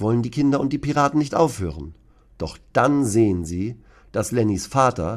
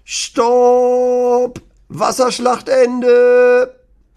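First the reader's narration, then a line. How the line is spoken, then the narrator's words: Very loud shout. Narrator (German): ruft Lennys Papa ganz laut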